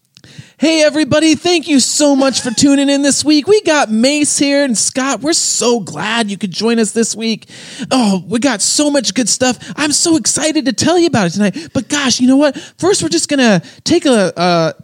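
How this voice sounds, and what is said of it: Cheesy upbeat podcast host voice. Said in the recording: “like cheesy Christian professional, quote unquote... they mostly sound very cheesy to me... it's not any like a Southern accent. It's a personality thing.”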